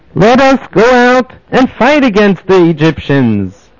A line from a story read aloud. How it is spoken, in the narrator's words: the weaker ones of Shevet Yehuda and Yosef called out